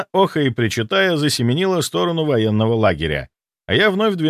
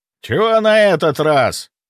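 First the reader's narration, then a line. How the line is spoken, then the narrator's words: Displeased grumble. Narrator (Russian): Недовольно проворчал он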